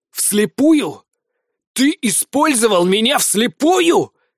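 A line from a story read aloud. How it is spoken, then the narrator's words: Nearly yelling. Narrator (Russian): едва не заорал я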